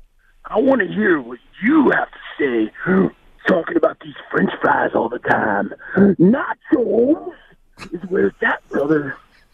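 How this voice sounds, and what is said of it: Imitates a pro wrestler's voice. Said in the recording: “He wasn't as good as the Stone Cold impersonation ... Randy Savage impersonation? ... Maybe the execution wasn't tremendous”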